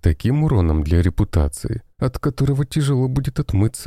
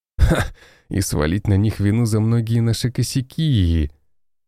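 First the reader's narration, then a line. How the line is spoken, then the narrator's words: Laughing. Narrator (Russian): рассмеялся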